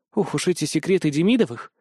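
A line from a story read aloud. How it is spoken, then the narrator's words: Woman sighing. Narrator (Russian): вздохнула управляющая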